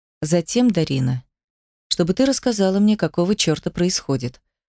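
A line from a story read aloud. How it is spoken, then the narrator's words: Completely calm. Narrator (Russian): сказал совершенно спокойно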